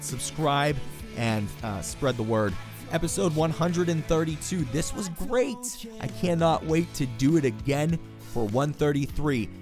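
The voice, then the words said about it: Hoarse, strained voice. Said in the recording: “I'm starting to lose my voice.”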